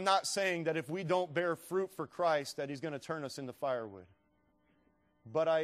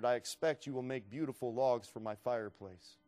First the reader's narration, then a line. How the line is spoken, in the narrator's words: The farmer calmly answered